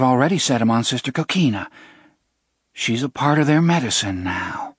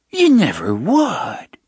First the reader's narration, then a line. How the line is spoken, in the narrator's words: Sister Michaela cried in a low, horrified voice